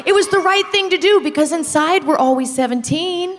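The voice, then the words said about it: Australian accent. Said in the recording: “Hold on, you have an accent. ... I'm from Australia.”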